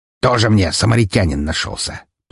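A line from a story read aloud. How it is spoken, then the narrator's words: Grumbling. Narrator (Russian): проворчал мэр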